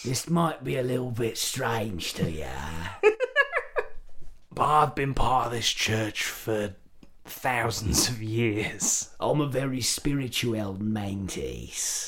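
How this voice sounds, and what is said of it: Put-on English Australian accent. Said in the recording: “I'm trying to do Carl Urban's best English Australian accent”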